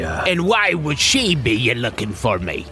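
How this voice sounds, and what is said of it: Pirate character voice. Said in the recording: “talk like a pirate”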